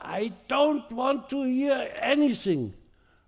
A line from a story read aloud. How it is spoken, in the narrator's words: my father, the powerful governor general, screamed at my brother